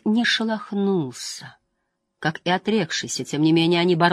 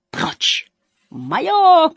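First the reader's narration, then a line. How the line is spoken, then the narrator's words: Shouting. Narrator (Russian): кричала Генор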